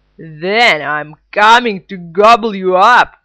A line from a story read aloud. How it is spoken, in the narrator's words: roared the troll